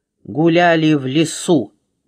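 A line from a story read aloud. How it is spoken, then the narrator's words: Grumbled mutter. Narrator (Russian): буркнула буква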